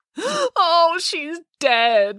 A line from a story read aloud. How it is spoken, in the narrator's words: wailed Matilda